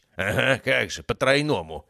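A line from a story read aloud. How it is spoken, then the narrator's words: Blurted, then laughing. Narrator (Russian): выпалил Герасимов и рассмеялся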